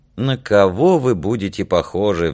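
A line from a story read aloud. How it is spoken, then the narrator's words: Sighing. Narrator (Russian): вздохнула Данка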